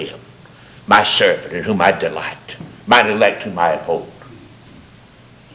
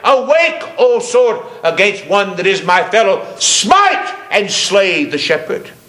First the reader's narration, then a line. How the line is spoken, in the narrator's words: God in fury cried